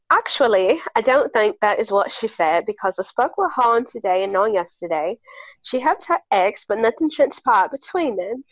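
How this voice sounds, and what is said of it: Put-on British accent. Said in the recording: “I have to read this in my British accent ... my sick British accent.”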